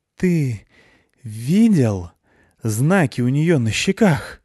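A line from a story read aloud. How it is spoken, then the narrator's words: Gurgling breathy exhale. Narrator (Russian): выдохнула с бульканьем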